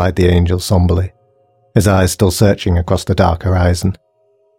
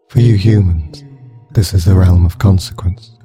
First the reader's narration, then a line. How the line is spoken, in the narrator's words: sighed the angel wearily